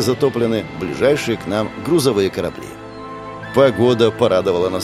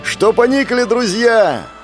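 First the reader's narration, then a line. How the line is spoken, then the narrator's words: Shout. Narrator (Russian): закричал Кеша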